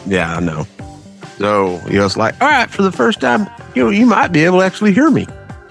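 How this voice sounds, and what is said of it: Southern US hillbilly twang. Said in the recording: “my horrible redneck hillbilly twang accent.”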